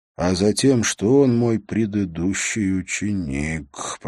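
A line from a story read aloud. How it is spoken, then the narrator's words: Through gritted teeth. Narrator (Russian): процедил Холт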